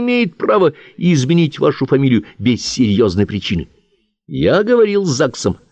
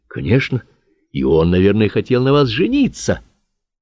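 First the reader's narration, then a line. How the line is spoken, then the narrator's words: Soft question. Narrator (Russian): мягко спрашивал Карасев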